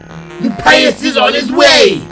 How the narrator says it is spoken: She shouted

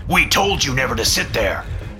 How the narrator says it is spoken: my father angrily said

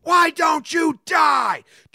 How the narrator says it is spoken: Australia man screaming at spider

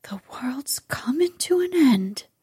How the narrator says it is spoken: gasped Martha

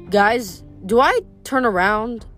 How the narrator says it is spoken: Leo asked nervously

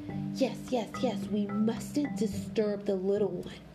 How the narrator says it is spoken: Duck whispered

